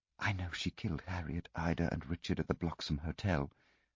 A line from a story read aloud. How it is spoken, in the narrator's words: Jenny whispered